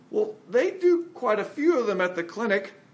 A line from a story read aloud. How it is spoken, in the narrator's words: With frightened eyes, Norman choked out